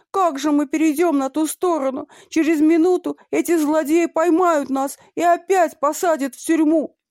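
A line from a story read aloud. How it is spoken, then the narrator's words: Monkey screaming. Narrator (Russian): одна из обезьян закричала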